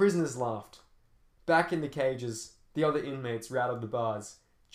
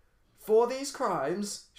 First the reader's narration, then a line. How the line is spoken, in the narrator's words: shouted the judge